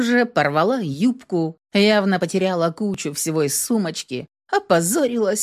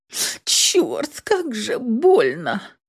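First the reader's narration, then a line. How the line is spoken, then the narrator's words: Sobbing. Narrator (Russian): всхлипнула я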